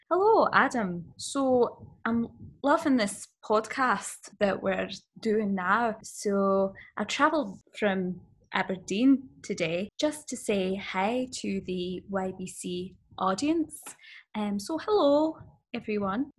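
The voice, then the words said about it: Put-on accent, fairly convincing. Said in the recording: “That's pretty good. That is pretty good. I am terrible at accents.”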